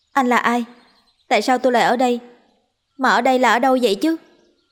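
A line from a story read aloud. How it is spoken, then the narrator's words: Curious loud question. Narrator (Vietnamese): Cô không sợ mà chỉ có hơi tò mò, lớn tiếng hỏi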